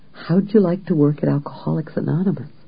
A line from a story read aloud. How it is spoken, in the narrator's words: A woman whispered